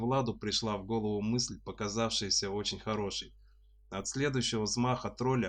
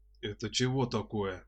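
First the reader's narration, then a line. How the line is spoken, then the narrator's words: Puzzled deep troll voice. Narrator (Russian): недоуменно пробасил тролль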